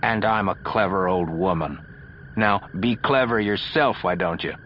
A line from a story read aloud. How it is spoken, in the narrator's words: Ikea groaned